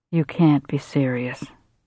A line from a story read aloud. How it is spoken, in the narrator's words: Bill had said in a flat, disbelieving voice